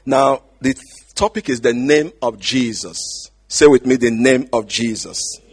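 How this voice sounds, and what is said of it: Speaks with a noticeable accent. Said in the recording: “if you're having a problem understanding my accent, I apologize”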